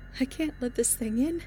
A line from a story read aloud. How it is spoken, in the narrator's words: she cried softly